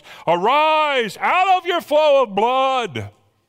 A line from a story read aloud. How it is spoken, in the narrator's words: shout at the top of your lungs